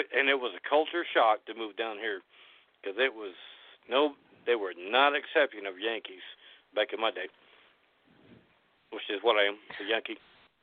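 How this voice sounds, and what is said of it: Southern American accent. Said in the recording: “you sound like you're Southern now ... I love that accent”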